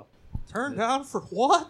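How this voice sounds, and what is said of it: Hank Hill cartoon character voice. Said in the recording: “That's my Hank Hill impersonation. ... That's Hank Hill impersonating Lil Jon.”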